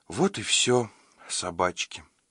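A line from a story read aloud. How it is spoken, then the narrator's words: Sighing. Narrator (Russian): вздохнула Таинта Лилит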